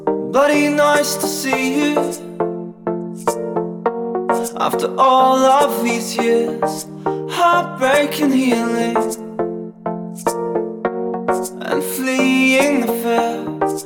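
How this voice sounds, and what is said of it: Kiwi twang in singing. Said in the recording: “a bit of electropop with a quintessentially Kiwi twang”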